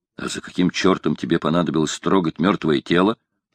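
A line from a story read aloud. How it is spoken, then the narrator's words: Plain. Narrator (Russian): спросил стрелок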